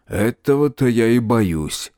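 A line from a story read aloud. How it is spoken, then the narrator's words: Grumbled. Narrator (Russian): буркнул Птоклюсп-старший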